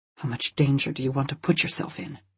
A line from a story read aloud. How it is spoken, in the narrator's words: He hissed